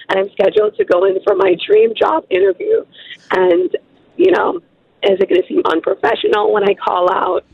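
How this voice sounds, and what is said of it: Hoarse, nearly lost voice. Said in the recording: “Your voice. You have party girl voice... I lost my voice between last night and this morning”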